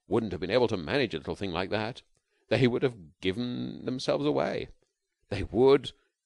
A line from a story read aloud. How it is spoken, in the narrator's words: he soliloquized happily